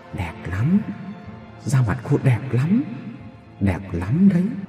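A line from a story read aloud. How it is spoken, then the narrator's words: Very soft whisper. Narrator (Vietnamese): có giọng ai đó nói rất khẽ bên tai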